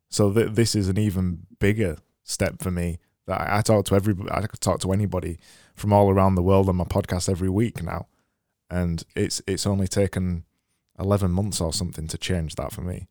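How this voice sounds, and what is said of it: Northern English accent. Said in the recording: “I've just got a typical accent from where I am. It's just the North accent, you know, the Game of Thrones North accent.”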